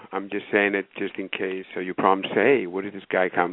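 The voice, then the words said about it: Greek accent. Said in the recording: “the accent here is Greek ... I'm Greek”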